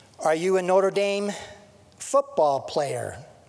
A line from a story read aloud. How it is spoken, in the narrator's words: the judge asked